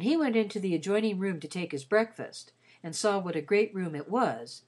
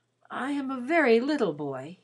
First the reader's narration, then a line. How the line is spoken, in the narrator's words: he said rather wistfully